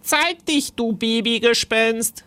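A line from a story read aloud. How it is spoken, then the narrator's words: Called out. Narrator (German): rief Timon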